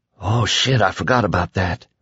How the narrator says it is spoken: Billy grew very still, and then he whispered

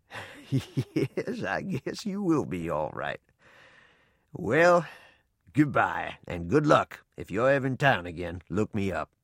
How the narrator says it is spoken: Chuckling deep down in his barrel-like chest, he said

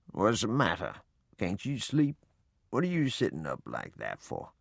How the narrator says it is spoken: In a sleepy voice, he asked

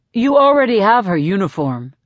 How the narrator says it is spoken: says Gale

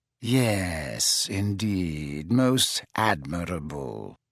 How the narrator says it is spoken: said Snape in a bored voice

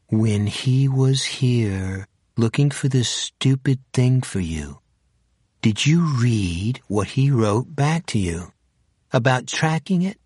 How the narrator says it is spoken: She said, slowly, as if he was an idiot

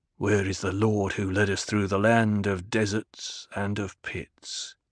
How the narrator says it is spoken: He murmured

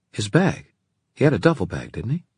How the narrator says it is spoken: Christina gave a gasp

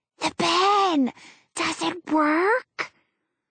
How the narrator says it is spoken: She whispers a little louder

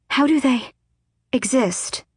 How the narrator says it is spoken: Elide breathed

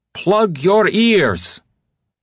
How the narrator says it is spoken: Ty shouting

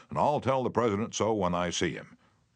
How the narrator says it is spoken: Roosevelt boomed

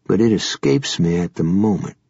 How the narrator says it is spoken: Gansey murmured darkly

